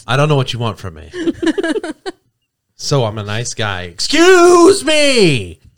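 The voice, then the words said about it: Voice cracking on a shout. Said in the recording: “Your voice just broke.”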